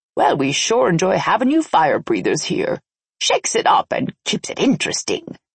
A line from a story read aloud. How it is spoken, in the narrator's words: she said with a cackle